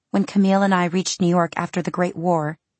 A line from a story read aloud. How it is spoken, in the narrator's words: she said brightly